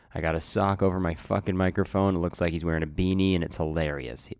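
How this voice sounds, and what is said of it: Sick-sounding voice. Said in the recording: “if you can't tell from my voice, I'm a little sick... I'm still quite sick”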